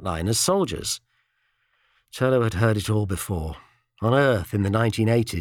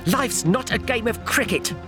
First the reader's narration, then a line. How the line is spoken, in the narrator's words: Magerson spat